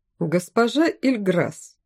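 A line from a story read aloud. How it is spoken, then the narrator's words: Excited after laughter. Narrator (Russian): Наконец отсмеялся король, в его голосе все еще звучали азарные нотки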